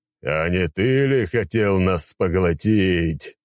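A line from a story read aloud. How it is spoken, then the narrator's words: Laughing dragon. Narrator (Russian): смеялся черный дракон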